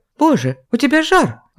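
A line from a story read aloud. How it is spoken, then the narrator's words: Panicked exclamation. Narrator (Russian): охваченная паникой воскликнула управляющая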